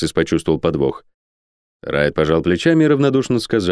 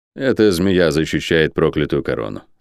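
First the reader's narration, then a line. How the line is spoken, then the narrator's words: Calm reply. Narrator (Russian): спокойно ответил Райт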